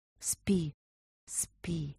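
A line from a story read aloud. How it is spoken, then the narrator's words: Whisper. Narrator (Russian): прошептала она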